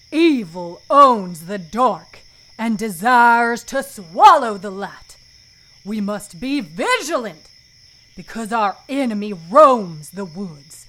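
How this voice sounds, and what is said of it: Deep character voice with twang. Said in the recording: “Add a little twang to that depth. Give it a little twang. ... It can't sound like any other character, but you also don't want to sound like Yosemite Sam.”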